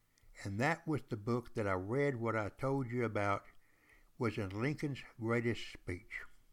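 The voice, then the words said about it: East Texas accent. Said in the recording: “non-accent. I got no accent. Down here in East Texas, they all talk like I do.”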